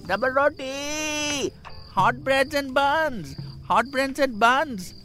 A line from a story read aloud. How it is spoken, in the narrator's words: from behind the door, I imitated the bread seller, shouting